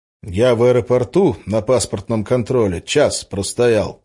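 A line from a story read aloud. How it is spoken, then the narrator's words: Plain. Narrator (Russian): сказал я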